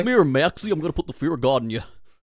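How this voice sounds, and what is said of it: Goofy impression. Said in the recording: “Goofy would also be a really good impression to be able to do, like on demand. Oh yeah, like a good one. Like that would be really funny with with the laugh”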